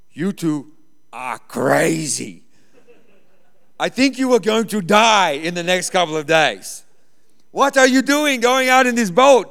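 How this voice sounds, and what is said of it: Put-on Croatian accent. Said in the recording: “he's an old Croatian guy. He's got this crazy accent ... in his Croatian accent”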